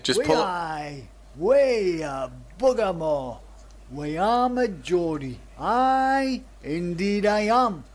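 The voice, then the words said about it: Geordie dialect. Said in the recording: “here's a poet with the Geordie dialect”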